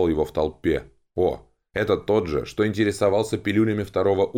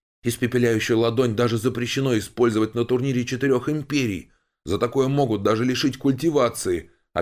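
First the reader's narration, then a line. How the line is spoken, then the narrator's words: Knowing young man exclaiming. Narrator (Russian): Опять воскликнул знающий парень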